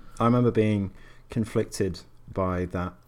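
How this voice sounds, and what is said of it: Usual voice. Nothing is said of it.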